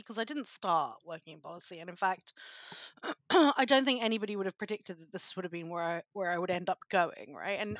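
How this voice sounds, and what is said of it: British accent. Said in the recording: “As you can probably tell from my accent, I'm a Brit.”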